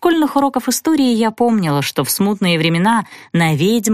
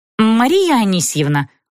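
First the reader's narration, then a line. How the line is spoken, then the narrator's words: Stern call. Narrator (Russian): строго позвала я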